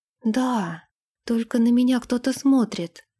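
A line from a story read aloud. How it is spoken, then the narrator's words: Whisper. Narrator (Russian): прошептала она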